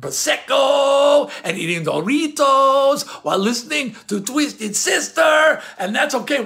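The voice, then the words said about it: Put-on Spanish accent. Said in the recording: “Why am I speaking with a Spanish accent?”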